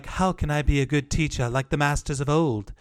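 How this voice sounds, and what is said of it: Imitates a movie character's voice. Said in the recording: “my Rey impersonation”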